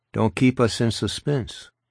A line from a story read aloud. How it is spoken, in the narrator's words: Sablo said